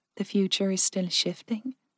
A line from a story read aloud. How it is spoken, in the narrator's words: Jen asked softly